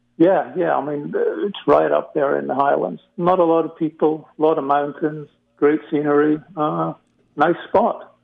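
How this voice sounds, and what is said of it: Scottish accent. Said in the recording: “I detect an accent. You don't sound like you're from Brooklyn ... I've got a bit of a hybrid Scottish accent”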